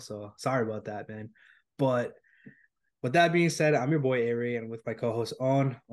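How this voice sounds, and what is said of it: Sick, unusual-sounding voice. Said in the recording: “I'm a little sick right now, so you guys are gonna have to hear all my weird voice”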